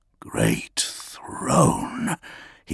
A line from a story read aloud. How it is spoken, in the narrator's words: he whispered